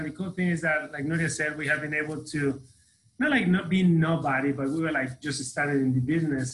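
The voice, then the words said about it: Mexican-accented English. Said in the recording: “I'm not from the United States. I'm from Mexico. You can hear my accent.”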